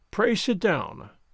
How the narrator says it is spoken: Kovalenko said coldly, with a frown

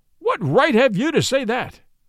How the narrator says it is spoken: cried

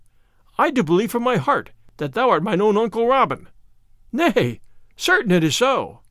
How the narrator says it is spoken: cried the other

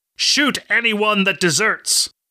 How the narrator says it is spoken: the commander shouted

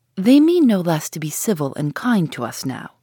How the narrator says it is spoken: said Eleanor

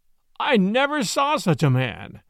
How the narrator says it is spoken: exclaimed the jocose detective

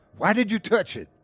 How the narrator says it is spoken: he yelled

